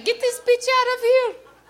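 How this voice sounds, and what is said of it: Whiny Saddam Hussein impression. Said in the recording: “I think that's a pretty good impression... How do you know in English he doesn't sound just like me? ... Whiny bastard”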